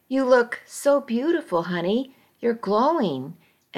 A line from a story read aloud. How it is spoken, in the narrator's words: she'd exclaim